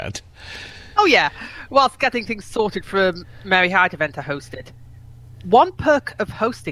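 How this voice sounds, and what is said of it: Usual voice. Nothing is said of it.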